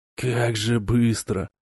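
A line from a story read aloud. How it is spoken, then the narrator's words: Grumbling. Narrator (Russian): проворчал разведчик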